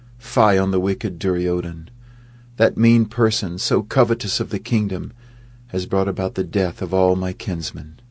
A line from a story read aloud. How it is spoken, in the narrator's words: cried out